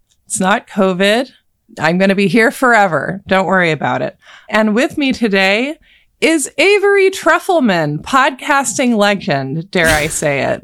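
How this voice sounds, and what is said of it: Congested voice with a cold. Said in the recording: “I have a little cold.”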